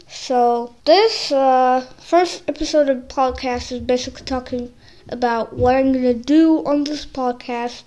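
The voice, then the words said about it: Slightly impeded, unusual-sounding speech. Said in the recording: “sorry for my little weird voice. ... I actually have this plate inside of my mouth, and I can't take it off, and I can't talk normally with it because it's hard.”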